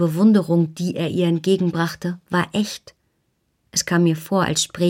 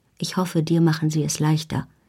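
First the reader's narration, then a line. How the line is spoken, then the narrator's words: Very quiet. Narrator (German): sagte er, so leise, dass nur ich es hörte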